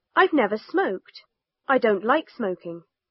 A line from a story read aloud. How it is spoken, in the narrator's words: Jenkins quickly